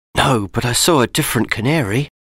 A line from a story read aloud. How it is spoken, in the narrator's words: Matt whispered